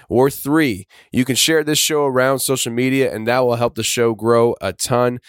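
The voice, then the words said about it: Strained voice, going hoarse. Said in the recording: “sorry about my voice here in the intros and the outros. My voice is ... actually going. Yeah, I'm catching a cold actually.”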